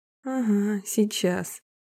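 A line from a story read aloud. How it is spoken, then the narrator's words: Snide inner voice. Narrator (Russian): ехидно возразил ей внутренний голос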